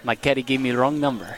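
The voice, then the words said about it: Bad put-on Spanish accent. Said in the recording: “That was a terrible Spanish accent. I don't even know what that was. ... That was like my Russian accent.”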